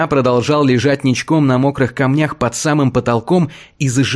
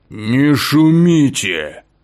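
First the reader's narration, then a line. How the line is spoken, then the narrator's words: Menacing deep bass voice. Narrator (Russian): уже более грозно повторил басовитый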